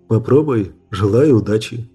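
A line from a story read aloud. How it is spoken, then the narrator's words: Plain. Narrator (Russian): сказал он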